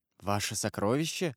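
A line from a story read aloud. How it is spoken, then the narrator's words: Whisper. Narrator (Russian): прошептал Дантес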